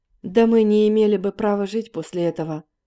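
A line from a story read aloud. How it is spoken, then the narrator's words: Plain. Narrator (Russian): сказал комиссар Парахин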